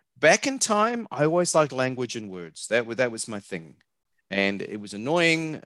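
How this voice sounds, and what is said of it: New Zealand accent. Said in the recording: “you can tell by my accent, I'm not from around here. I'm a New Zealander.”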